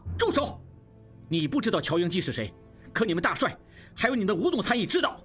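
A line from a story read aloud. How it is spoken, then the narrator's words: Roar. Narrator (Chinese): 应季……吼道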